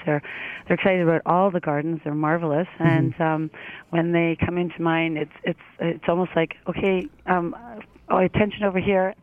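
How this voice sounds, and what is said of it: Strained, worn-out voice. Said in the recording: “my voice is gone”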